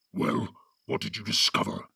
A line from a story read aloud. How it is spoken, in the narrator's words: growled the voice of Ugluk